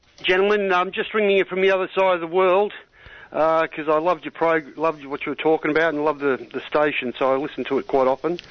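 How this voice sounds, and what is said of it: Australian accent. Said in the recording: “you got to guess my accent ... You're Australian.”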